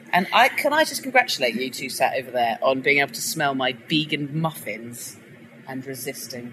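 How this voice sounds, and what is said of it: Sarcastic delivery. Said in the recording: “I'm being sarcastic. ... You're really good at being sarcastic.”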